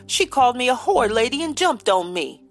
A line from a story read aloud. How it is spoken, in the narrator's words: he bawled